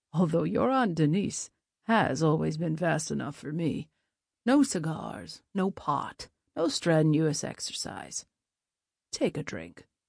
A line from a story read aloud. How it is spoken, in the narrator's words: chuckled